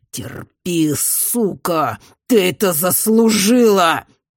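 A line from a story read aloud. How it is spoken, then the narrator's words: Growled. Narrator (Russian): прорычал он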